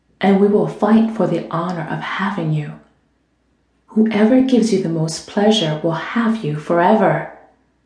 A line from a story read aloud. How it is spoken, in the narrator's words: Dominic whispered in her ear